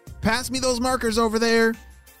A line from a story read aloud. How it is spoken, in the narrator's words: she shouted